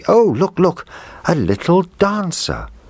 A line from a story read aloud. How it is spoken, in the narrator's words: Then the little girl cried out happily